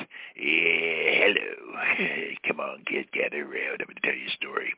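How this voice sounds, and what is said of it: Creepy old man voice. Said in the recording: “my creepy old man voice.”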